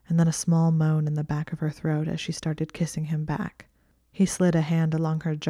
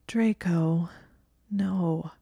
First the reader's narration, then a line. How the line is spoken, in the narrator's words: she said in a thick voice